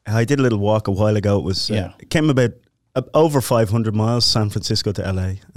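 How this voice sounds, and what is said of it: Irish accent. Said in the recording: “all the way from Ireland ... You have the perfect accent”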